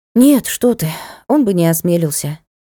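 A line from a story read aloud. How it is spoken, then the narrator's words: Sighing. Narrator (Russian): вздохнула я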